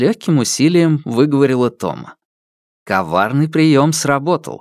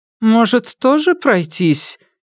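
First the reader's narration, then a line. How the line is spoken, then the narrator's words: Hesitant, uncertain. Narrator (Russian): неуверенно произнесла Гиссау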